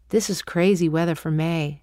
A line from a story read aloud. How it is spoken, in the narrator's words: he said